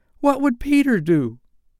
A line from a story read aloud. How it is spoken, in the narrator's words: they cried simultaneously